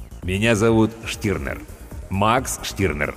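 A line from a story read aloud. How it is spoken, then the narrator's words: Plain. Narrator (Russian): ответил бородач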